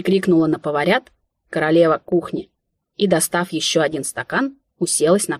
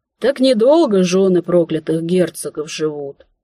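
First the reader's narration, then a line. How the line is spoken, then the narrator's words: Sighing. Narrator (Russian): вздохнула она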